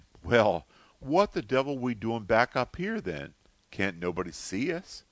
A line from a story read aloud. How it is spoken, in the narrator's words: exclaimed